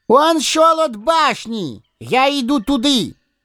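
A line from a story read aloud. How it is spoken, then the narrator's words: Fox shouting. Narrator (Russian): крикнул лис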